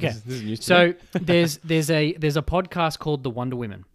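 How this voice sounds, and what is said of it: Australian accent. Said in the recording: “Excuse my Aussie accent.”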